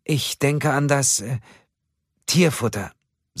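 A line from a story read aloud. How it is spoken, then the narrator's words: Hesitant. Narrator (German): sagte Ölver zögernd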